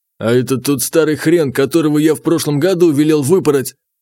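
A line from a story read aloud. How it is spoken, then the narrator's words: Said through gritted teeth. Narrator (Russian): Князь процедил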